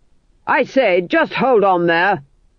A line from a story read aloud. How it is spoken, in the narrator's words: shouted Berence